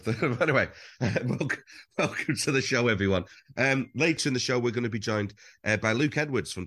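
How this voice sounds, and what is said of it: Sore-throated, poorly-sounding voice. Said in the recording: “the presenter sounded really poorly this week ... I've got a bit of a sore throat”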